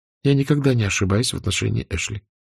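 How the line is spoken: Calm reply, trembling lips. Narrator (Russian): спокойно ответила Мелани, хотя губы у нее дрожали

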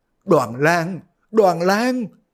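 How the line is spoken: Sobbing cry. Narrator (Vietnamese): Dương phu nhân khóc ròng kêu lên

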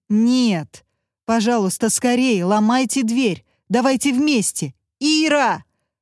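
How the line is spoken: Loud yelling. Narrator (Russian): Даниил заорал громко

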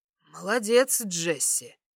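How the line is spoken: Hoarse. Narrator (Russian): хрипло произносит Джейсон

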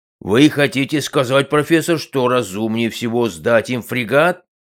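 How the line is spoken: Roared. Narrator (Russian): взревел Хаташ

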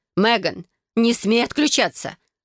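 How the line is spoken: Mother's growl. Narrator (Russian): прорычала матушка

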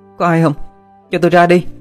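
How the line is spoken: Woman shouting, pounding door. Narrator (Vietnamese): Đập cửa trầm trầm, cô la lên

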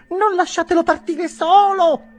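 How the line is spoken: Women shrieking. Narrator (Italian): strillarono le donne

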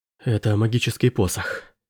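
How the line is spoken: Breathy exhale. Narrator (Russian): выдохнула она

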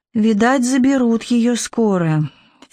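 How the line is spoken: Heavy sigh, fairy. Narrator (Russian): фея тяжело вздохнула

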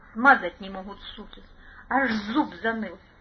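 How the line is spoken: Angry mutter. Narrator (Russian): Зло буркнул Сухонов

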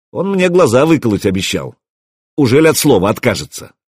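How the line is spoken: Dramatic question. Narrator (Russian): Заря поинтересовалась драматически

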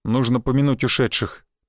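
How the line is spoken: Sad. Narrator (Russian): печально сказал он

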